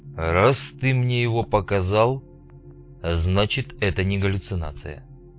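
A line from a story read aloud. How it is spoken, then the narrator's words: Muttering. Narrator (Russian): пробормотал Снейк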